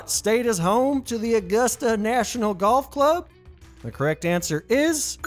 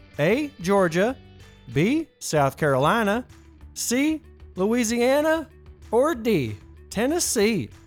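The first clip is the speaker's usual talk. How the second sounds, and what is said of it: Put-on Southern US accent. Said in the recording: “Couldn't help but let that southern accent come out.”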